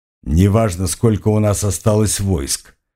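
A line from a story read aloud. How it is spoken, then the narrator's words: Dismissive snort. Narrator (Russian): хмыкнул князь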